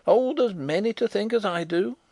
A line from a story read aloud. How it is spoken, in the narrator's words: cried the old woman stubbornly